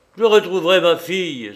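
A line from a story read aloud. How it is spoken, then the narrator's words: Exclaiming. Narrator (French): s'écria-t-il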